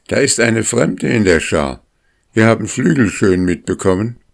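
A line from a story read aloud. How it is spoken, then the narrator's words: Called out promptly. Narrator (German): rief er sofort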